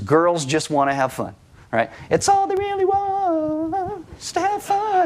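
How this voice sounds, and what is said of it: Sung in a falsetto. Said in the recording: “I can only do it in a falsetto.”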